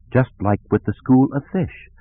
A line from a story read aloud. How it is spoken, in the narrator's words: Kilgall said quietly